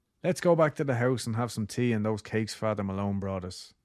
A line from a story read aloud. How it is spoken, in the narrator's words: Orla said